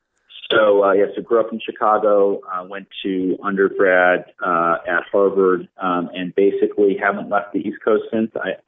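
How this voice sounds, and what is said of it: Midwestern Chicago accent. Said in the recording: “the Midwestern guy. Always warms my heart to hear a great Midwest accent.”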